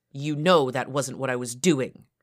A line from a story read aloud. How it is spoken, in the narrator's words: I spat